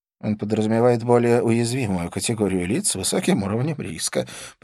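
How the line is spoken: Mumbling. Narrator (Russian): промямлил Скорпион

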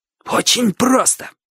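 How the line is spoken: Excited wheezing voice. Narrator (Russian): сказал Боча, возбуждаясь от собственной догадки, и от этого голос его еще сильнее засипел

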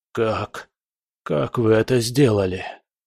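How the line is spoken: Whisper. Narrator (Russian): прошептал он

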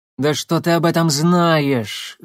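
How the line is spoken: Angry hiss. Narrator (Russian): злобно прошипела Арина Станиславна

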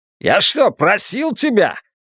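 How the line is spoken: Barked. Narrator (Russian): рявкнул Уорвик

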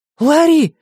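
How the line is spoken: Sharp cry. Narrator (Russian): вскрикнула Люси

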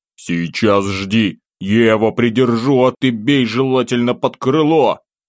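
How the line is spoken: Loud call. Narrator (Russian): Громко бросил

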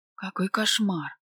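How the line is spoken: Anguished moan, ashamed. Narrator (Russian): Покраснев от стыда, истошно застонала

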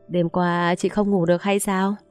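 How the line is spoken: Laughing question. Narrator (Vietnamese): Hoàng liền bật cười hỏi

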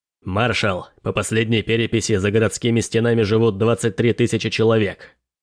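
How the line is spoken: Shrill report. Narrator (Russian): Пронзительным голосом доложил Ренпроу

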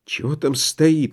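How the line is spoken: Muttered. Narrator (Russian): пробормотал Барсуцкий

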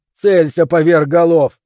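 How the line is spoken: Shouted. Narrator (Russian): крикнул Бен

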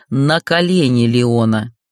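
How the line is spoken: Cold hollow growl. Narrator (Russian): Холодные рычания, как эхо пустоты в льдинах

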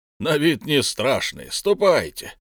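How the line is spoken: Loud laughter. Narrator (Russian): Он громко захохотал

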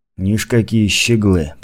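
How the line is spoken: Mutter. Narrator (Russian): пробормотал Гурбан

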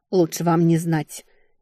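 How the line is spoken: Displeased grumble. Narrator (Russian): недовольно буркнула я

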